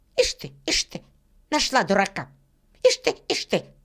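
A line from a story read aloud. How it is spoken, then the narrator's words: Distrustful squeak. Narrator (Russian): Сидор недоверчиво пропищал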